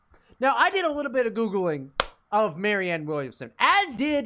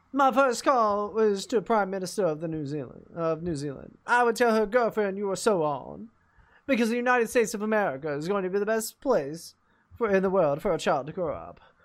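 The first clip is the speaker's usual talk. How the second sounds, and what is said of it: Imitated transatlantic accent. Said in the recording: “Who has a transatlantic accent?”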